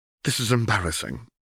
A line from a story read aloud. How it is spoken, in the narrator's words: Tiana Crowncart spat